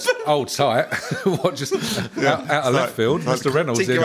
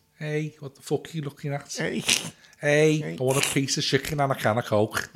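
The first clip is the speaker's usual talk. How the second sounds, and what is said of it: Put-on Scouse accent. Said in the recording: “what accent is this lobster of yours having? ... Scouse accent”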